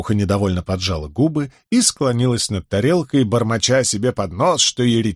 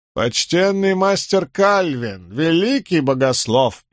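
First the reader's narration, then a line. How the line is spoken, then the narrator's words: Toothless old woman mumbling. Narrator (Russian): прошамкала старуха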